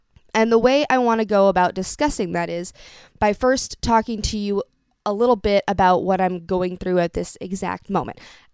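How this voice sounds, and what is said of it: Voice sounds off, affected. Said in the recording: “hear it in my voice, but it's still off ... I am suffering from a mild to moderate case of LPR ... Laryngopharyngeal reflux, also known as Singer's reflex”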